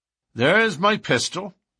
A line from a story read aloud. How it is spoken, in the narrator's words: said McMurdo coolly